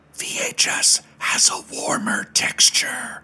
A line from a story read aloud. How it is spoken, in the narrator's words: she whispers with her dead voice